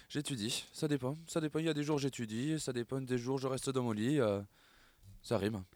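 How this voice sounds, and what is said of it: Singsong southwestern French accent. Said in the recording (French): “t'as un accent un peu chantant ... Le sud ... Le sud-ouest”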